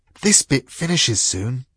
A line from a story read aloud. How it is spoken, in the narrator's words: whispered the dog